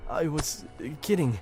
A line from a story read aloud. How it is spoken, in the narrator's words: he sputtered